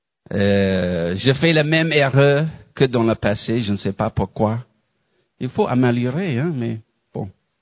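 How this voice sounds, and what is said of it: Non-native accent speaking French. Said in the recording (French): “j'ai le même accent quand je parle français”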